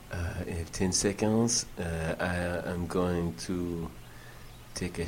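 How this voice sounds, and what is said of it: Put-on French accent. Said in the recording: “my ridiculous French accent ... No, Gustave, it is not ridiculous. ... It is beautiful.”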